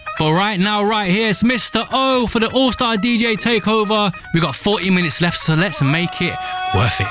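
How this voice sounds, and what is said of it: Birmingham accent. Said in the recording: “my Birmingham accent”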